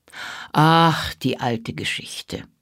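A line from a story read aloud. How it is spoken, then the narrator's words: Sighing. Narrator (German): seufzte er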